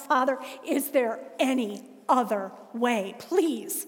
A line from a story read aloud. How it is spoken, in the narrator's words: And he cried out